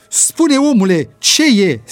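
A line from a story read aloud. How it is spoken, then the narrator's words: Shouting urgently. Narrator (Romanian): strigă Ricky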